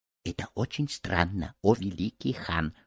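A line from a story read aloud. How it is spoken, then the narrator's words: Whispered. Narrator (Russian): шепнул Рахат-Лукум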